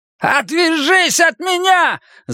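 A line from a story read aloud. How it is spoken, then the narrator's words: Yelling. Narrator (Russian): завопил Оскар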